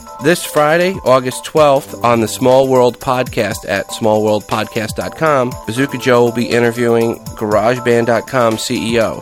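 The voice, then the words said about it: Hoarse, worn-out voice. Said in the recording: “lost my voice, so if my voice sounds different than normal ... my voice is just is toast the last couple days”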